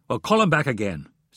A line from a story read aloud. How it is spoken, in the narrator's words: snapped Hayes